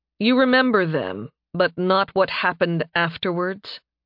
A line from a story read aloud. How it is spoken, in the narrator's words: He asked Kadria slowly